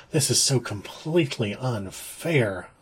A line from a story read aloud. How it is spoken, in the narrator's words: I muttered